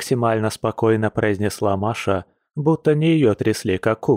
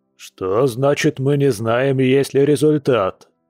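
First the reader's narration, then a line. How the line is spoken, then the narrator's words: Loud indignation. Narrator (Russian): громко возмутился папа-медведь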